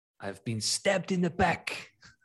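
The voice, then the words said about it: Deliberately bad put-on accent. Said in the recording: “That's a really bad accent ... it's not Shakespeare, given that accent”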